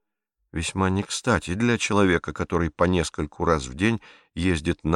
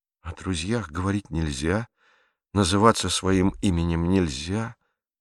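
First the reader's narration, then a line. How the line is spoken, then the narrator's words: Melancholy mutter. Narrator (Russian): тоскливо пробормотал Пьеро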